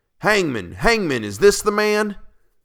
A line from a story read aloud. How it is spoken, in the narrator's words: we cried again